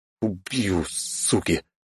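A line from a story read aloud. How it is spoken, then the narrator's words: Furious hiss. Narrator (Russian): зашипело это сознание, что те гады, живущие на верхних этажах, отключили электричество всем, кто живет пониже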